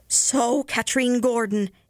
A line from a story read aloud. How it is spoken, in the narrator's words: cried